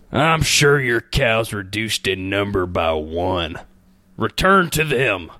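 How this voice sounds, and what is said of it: Put-on cowboy accent. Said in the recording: “I'm gonna try one in a cowboy accent”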